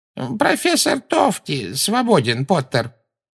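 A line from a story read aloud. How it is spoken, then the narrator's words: Creaky voice. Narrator (Russian): проскрипел Флитвик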